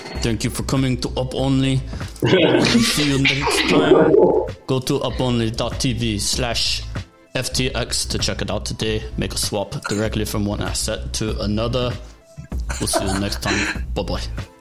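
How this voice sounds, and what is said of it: Put-on foreign accent. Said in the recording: “Do any accent. Australian, New Zealand. ... That's quite good. I like that. That's quite good.”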